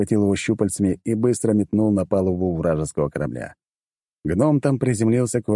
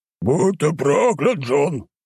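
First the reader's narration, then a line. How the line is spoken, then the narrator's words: Menacing shout. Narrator (Russian): грозно крикнул Баги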